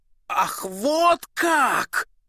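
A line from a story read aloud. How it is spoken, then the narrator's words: Angry interruption. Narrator (Russian): сердито перебил ее сапожник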